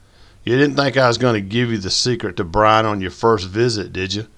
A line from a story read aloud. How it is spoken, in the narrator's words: Boyd chuckled